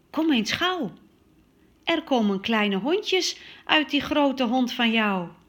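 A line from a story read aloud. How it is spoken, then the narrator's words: Calling out. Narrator (Dutch): roept mama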